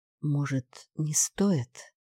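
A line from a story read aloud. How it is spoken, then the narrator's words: Uncertain. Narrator (Russian): неуверенно сказала Даша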